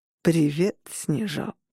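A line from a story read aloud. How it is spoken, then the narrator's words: Purring. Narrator (Russian): промурлыкал Адам Пирс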